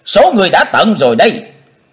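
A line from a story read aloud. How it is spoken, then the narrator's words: Shout. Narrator (Vietnamese): Trong tiếng hét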